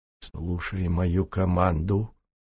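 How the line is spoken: Quiet. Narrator (Russian): тихо сказал Дишков, и все конники его услышали

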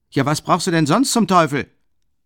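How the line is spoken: Called from above. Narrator (German): rief ihm von oben Rasumichin noch nach

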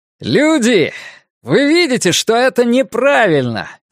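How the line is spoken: Shouted. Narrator (Russian): закричал Ларри

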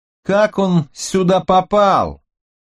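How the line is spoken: Shouted, voice steadied. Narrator (Russian): Справившись с голосом, крикнул Росс

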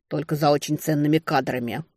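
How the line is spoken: Grumbling mutter. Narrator (Russian): буркнула я

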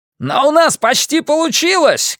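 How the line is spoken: Shouting back. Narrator (Russian): крикнул в ответ Джексон

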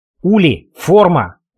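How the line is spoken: Hissed. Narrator (Russian): прошипела Зики

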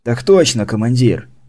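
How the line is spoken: Unenthusiastic sigh. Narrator (Russian): вздохнул Маевский без энтузиазма

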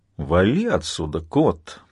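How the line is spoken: Grumbling. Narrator (Russian): проворчал Джон

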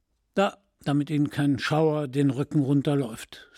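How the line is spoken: Plain. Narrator (German): sagte

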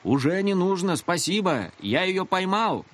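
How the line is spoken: Shouting. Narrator (Russian): закричал он

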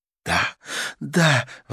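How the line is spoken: Exclamation. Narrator (Russian): воскликнула Карла

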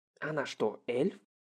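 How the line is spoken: Whisper. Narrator (Russian): прошептал Ранта

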